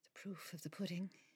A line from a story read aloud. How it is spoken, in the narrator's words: she muttered